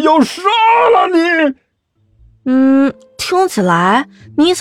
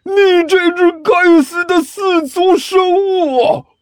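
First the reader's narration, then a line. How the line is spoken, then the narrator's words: Furious, exasperated. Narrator (Chinese): 尼采气急败坏的声音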